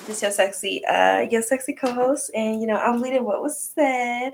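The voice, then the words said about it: Put-on sexy, sultry voice. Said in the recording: “put on the sexy voice”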